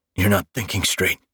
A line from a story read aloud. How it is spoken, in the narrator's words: grunted